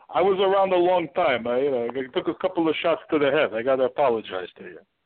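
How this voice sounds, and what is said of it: Bruno Sammartino impression, heavy accent. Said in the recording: “You didn't lose your accent, though. ... Bruno, my accent is hell for everybody else.”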